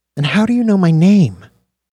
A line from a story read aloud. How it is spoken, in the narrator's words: Dax sighed